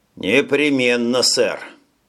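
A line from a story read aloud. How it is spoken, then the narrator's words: Grumble. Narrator (Russian): пробурчал Джим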